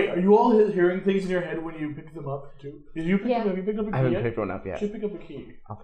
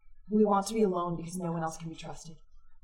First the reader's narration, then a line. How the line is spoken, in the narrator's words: And it whispers